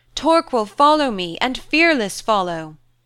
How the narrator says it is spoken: Nuha cried

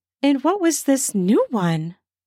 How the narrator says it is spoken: She laughed with a wickedness he'd never thought her sweet giggle could turn into

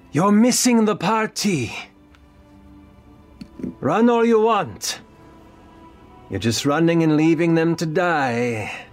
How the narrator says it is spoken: she shouts out

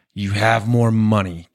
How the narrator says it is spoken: Kevin Austin snarls

